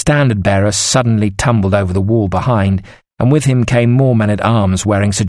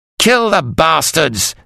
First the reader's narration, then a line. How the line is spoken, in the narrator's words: Sir John screamed